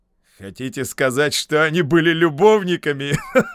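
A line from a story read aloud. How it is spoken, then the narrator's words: Question then loud laughter. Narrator (Russian): Спросил Моррис и расхохотался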